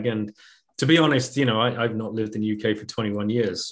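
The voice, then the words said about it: British accent. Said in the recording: “you've kept your accent, though.”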